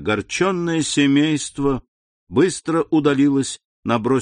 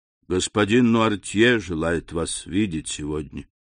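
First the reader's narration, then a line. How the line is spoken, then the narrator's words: Quiet speech. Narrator (Russian): тихо сказал он ей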